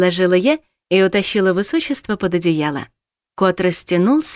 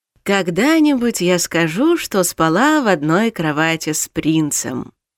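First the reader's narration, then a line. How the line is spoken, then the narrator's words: Thoughtful drawl. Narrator (Russian): задумчиво протянула я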